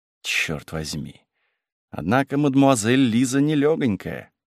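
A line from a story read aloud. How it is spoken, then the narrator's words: Whisper to himself. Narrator (Russian): шептал про себя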